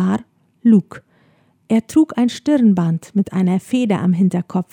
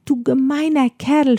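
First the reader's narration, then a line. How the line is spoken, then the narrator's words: Shouting. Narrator (German): schrie sie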